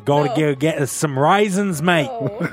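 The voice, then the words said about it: Put-on Australian accent. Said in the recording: “pretend you had an Australian accent ... Pushing a little bit.”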